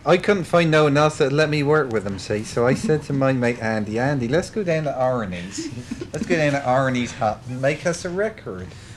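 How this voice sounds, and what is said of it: Exaggerated Dorset English accent. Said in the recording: “why ... is talking like this ... they come from the same county of England, being the County Dorset ... is that a real Dorset accent we're hearing there?”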